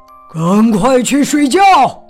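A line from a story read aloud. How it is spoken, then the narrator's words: Bear roaring. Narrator (Chinese): 一只大熊就吼道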